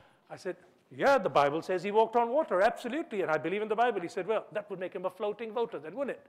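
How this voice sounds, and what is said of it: Usual voice. Nothing is said of it.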